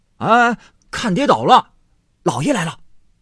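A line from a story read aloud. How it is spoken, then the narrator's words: Anxious call. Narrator (Chinese): 急得贝明在后头赶着叫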